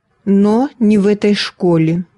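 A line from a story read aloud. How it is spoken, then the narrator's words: Stern. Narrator (Russian): строго сказала мисс Литл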